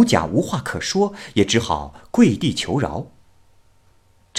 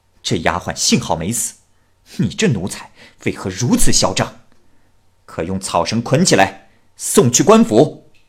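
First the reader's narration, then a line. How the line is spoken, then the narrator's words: Angry rebuke. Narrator (Chinese): 丫鬟怒斥某甲说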